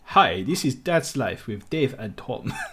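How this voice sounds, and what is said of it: Put-on Romanian accent. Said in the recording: “in a Romanian accent ... That's very good. ... That was almost Chinese, actually.”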